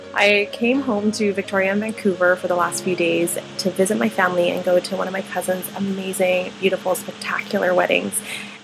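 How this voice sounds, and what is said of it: Congested, stuffy voice. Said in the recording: “I have a bit of a cold”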